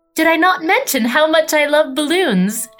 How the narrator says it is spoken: asked Camilla excitedly

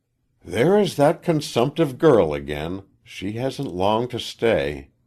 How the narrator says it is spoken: A woman said sighfully

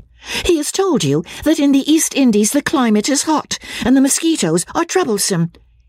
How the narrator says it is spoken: cried Marianne contemptuously

